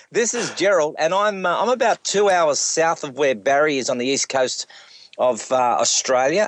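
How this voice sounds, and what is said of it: Heavy Australian accent. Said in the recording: “my heavy Australian accent”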